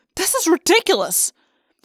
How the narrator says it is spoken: said angrily

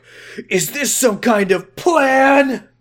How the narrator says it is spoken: He shouted angrily

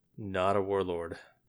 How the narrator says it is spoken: Felwinter muttered

